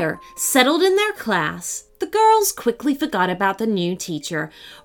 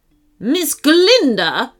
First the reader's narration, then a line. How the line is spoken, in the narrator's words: snapped the teacher